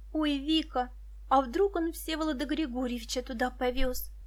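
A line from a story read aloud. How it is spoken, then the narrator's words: Whispering in ear. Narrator (Russian): прошептала Муся на ухо подруге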